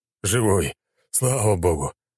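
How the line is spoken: Relieved exhale. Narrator (Russian): С облегчением выдохнул Воробьев

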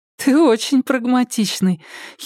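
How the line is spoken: Girl's giggle. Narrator (Russian): хихикнула девушка

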